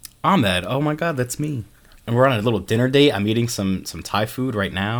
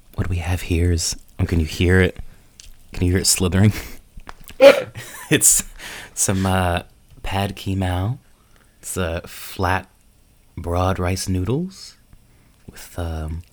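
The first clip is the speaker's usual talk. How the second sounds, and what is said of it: Soft whispery ASMR-style voice. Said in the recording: “your best ASMR impression”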